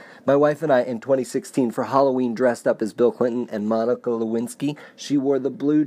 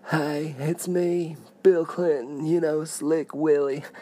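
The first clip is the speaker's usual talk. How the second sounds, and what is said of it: Bill Clinton impression. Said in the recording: “I do a couple presidential impersonations ... My Bill Clinton, though, is the best.”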